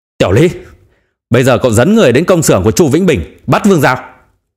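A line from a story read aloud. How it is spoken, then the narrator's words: Furious roar. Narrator (Vietnamese): gầm lên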